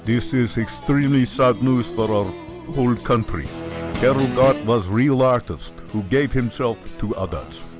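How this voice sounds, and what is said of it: Put-on Czech-style foreign accent. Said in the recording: “Really good accent.”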